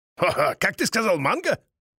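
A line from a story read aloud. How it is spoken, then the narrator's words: Jaded old man chuckling. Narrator (Russian): хохотнул пресыщенный жизнью старый Памбера Крис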